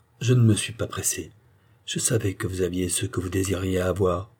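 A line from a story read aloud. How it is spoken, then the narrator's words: Sighing. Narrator (French): ajouta Pitou avec un soupir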